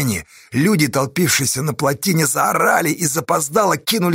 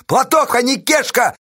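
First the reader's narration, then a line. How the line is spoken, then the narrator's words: Shouted into a pipe. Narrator (Russian): крикнул Осташа в трубу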